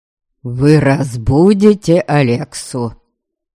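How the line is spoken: Loud, clear, repeated. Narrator (Russian): В очередной раз громко и отчетливо проговорил Дариан

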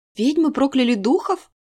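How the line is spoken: Sudden realization exclamation. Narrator (Russian): воскликнула внезапное озарение

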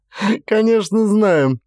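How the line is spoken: Laughing. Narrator (Russian): рассмеялась Вильма

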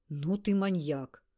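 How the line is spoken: Gasped. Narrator (Russian): выдохнул Ласковин

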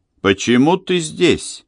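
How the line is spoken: Sharp question. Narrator (Russian): резко спросила Эмили

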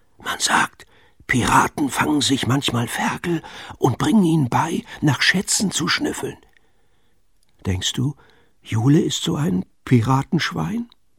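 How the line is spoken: Whispered. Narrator (German): flüsterte er

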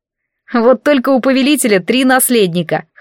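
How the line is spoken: Snorting. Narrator (Russian): хмыкнул Хариет

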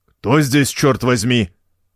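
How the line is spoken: Angry, faltering. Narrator (Russian): Сердито начал он и запнулся

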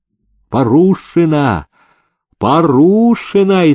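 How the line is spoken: Frenzied drunken shouting. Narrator (Russian): иступленно закричали охмелевшие свахи

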